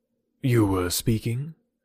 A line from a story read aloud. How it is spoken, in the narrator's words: said he gravely